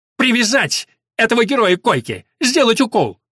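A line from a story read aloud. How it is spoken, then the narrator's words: Loud commanding head nurse. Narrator (Russian): Громко, чтобы слышно было раненым в других палатках, объявила старшая сестра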